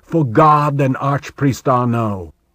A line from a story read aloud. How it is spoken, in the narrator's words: a knight came out, in full armor except for his helmet, bellowing